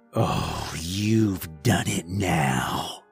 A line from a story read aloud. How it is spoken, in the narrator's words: snarled, spitting out black sludge